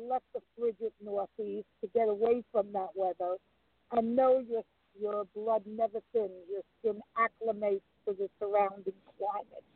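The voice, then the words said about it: New York accent. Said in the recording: “you retained your accent ... I will never lose the accent ... this area is all New Yorkers”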